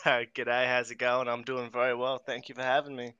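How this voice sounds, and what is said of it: Australian accent. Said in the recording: “hearing the Aussie accent.”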